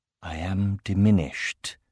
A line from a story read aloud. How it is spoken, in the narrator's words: she whispered